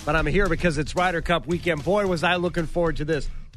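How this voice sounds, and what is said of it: Congested, sick-sounding voice. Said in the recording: “Yes, I have a cold.”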